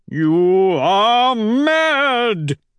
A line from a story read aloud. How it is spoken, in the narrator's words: he howls